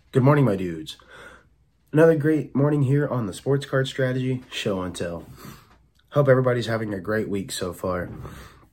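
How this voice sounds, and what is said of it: Rough voice from a cold. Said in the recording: “Sorry if I sound rough, guys. ... gotten a little bit of a cold and it has gotten to me, so my voice is a little weird ... sounds like a little bad”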